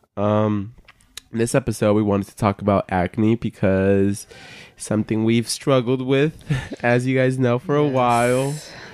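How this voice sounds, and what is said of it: Sick, congested, nasal voice. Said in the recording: “I sound sick right now, so excuse my voice sounding cloggy and nasally”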